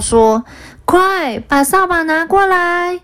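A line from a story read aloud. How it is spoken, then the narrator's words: Loud roar. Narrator (Chinese): 一名员工大声吼道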